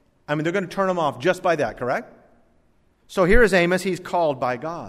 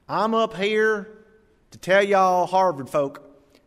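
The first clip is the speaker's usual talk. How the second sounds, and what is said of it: Put-on Southern country accent. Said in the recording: “some southern country bumpkin ... the accent alone”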